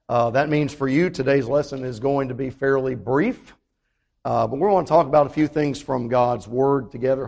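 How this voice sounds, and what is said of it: Strained, recovering voice. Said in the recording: “after two Sundays of not being able to talk at all ... my voice is still not where I want it to be, but it is getting better.”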